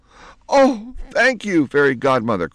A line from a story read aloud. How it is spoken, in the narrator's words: cried Penelope